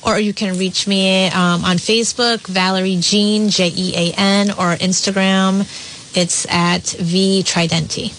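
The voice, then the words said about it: Polished radio voice. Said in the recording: “she has a great radio voice. You really sound ... awesome ... On the radio.”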